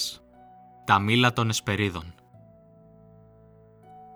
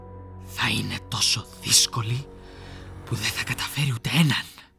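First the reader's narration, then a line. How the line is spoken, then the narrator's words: Spiteful mutter. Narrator (Greek): μουρμούρισε με κακία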